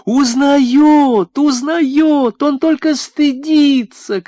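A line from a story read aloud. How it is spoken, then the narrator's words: Shout. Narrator (Russian): кричала Кама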